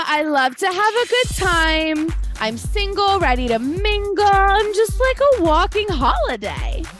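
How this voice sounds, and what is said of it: Drunk Dina impression. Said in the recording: “I could do a pretty good drunk ... Can you do a drunk Dina?”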